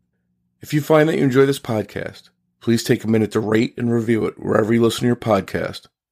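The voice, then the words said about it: Choppy, sick-sounding voice. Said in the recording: “my voice sounds a little bit choppy because I got sick right before recording”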